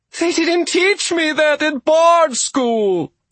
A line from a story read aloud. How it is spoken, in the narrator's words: Argabella wailed